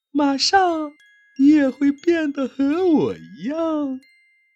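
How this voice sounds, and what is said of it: Strange, odd character voice. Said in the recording (Chinese): “用一种很奇怪的声音说道”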